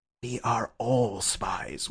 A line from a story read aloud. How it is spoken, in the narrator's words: whispered Syme